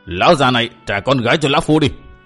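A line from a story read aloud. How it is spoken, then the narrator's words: Shouted command. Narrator (Vietnamese): y quát bảo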